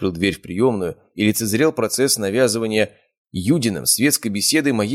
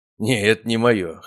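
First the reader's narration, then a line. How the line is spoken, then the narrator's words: Snorting. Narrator (Russian): хмыкнул я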